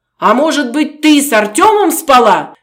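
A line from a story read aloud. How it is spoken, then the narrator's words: Furious shouting. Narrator (Russian): в бешенстве кричал Сергей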